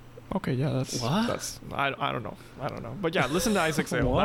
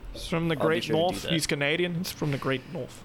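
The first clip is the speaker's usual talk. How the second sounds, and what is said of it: Poor put-on British accent. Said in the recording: “I don't know why I'm talking British accent. ... You call that British? ... I'm terrible with accents.”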